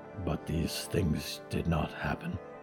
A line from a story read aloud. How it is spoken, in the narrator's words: Diggory said quietly